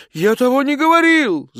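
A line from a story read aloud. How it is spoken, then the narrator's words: Shouting. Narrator (Russian): закричал он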